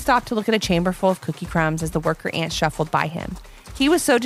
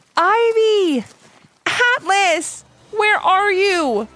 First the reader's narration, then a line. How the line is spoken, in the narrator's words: shouted, getting more and more nervous